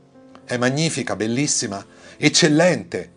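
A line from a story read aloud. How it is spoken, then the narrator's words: Joyful exclamation to each other. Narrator (Italian): esclamarono l'uno con l'altro e si rallegrarono molto delle loro parole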